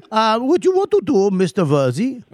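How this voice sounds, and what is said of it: Put-on Indian accent. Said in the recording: “what am I, fucking Indian tech serve? ... I just try to do accents. ... It's an impression.”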